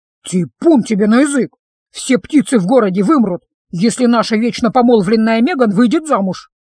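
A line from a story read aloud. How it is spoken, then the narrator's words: Displeased grumbling. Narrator (Russian): недовольно заворчала другая химера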